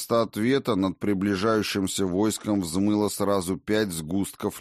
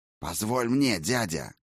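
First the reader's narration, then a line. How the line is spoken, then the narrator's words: Growling. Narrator (Russian): рыкнул Фенрир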